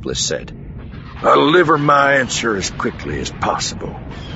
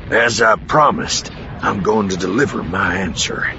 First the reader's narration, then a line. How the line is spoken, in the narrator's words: Bel Iblis said coolly